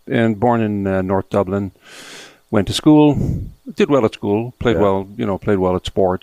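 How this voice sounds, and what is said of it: Irish accent. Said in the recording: “You have a lovely Irish accent.”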